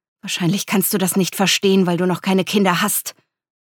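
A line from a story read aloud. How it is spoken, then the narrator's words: Irritated hiss. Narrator (German): fauchte Natalia gereizt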